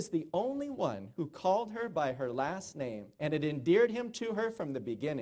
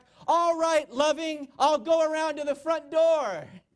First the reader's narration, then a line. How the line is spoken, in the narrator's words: he shouted back